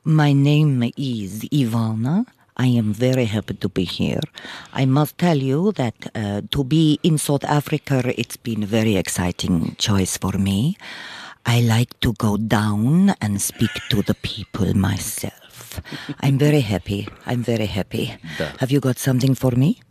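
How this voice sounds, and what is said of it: Put-on Russian accent. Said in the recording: “You are good at accents. You do them well. ... Do the Russian for us.”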